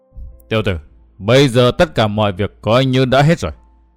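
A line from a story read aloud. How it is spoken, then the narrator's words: Cold voice. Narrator (Vietnamese): Đại độc Tiền Khôi lạnh lùng nói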